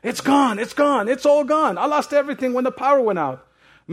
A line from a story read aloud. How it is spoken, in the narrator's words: frantically, screaming